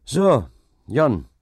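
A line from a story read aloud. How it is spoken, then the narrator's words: Calling out. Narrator (German): rief dieser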